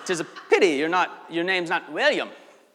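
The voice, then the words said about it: Scottish accent. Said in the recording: “This is a really good Scottish accent”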